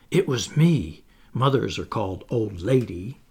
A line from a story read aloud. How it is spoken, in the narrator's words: whispered